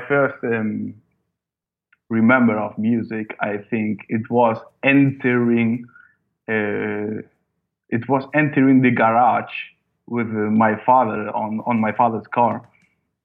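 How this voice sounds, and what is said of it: English with German-influenced accent. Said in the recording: “my English accent is like more German than Spanish”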